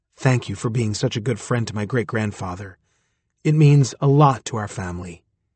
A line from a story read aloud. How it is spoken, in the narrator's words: whispered in my ear